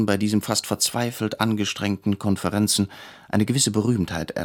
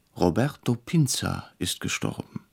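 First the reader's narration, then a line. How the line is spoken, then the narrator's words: Quiet, startled. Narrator (German): erschrocken ... sagte leise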